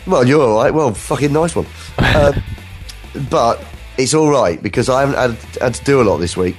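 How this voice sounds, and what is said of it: Congested, stuffy voice. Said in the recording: “I've got a cold.”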